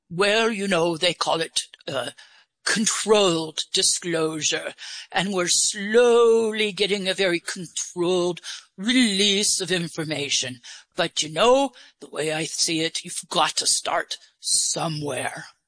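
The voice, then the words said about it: Put-on English accent. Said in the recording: “Where did you get your English accent? ... Oh, I actually created it for you. ... you're doing a good job with it.”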